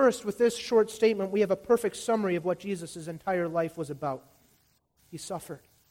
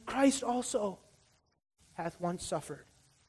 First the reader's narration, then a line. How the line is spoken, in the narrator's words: let this text whisper in our ears